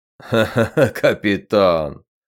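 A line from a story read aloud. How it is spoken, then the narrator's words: Laughing. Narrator (Russian): хохотнул Эрд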